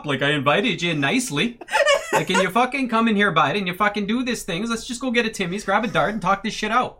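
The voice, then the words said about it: Exaggerated Canadian accent, angry rant. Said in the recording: “Canadian Karen ... that's Canadian Karen”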